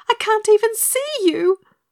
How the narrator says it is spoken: wailed Dorothy

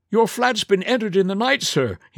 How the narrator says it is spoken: he cried

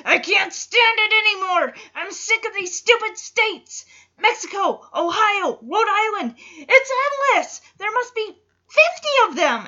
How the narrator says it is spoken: Alan yells

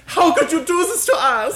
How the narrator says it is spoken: She screamed in a fit of German rage

